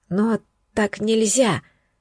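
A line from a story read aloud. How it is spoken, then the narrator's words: Whisper. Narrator (Russian): шепнули губы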